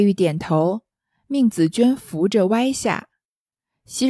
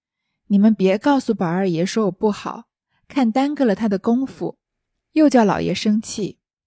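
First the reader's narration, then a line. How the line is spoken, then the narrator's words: Sighing, hesitant. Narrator (Chinese): 黛玉……叹了一声，才说道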